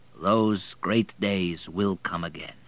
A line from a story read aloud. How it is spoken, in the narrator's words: said the Baron quietly